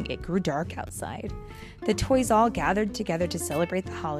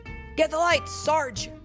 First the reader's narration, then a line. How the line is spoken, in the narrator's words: Buzz shouted